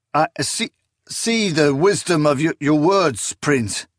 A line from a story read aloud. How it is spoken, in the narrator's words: the nameless knight stammered